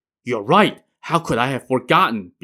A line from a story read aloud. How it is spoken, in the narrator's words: Began exclaimed